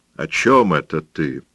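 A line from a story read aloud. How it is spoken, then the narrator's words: Angry question. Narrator (Russian): сердито спросил Пабло, чувствуя насмешку в его тоне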